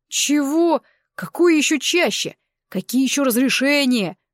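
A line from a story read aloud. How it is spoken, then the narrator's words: Roared. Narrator (Russian): взревел Таран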